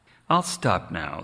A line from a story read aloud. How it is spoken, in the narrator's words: said the fox